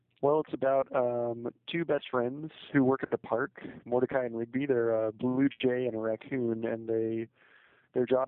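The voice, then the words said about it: Slightly congested voice with a cold. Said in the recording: “I have a little bit of a cold”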